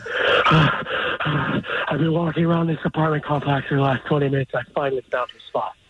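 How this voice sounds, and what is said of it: Whispering. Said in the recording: “doing a Khloe Kardashian impression? ... I'm trying to whisper. ... Why are you whispering?”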